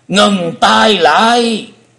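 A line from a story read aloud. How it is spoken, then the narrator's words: Thunderous shout from above. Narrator (Vietnamese): có tiếng quát tở trời gầm từ trên không trung đưa xuống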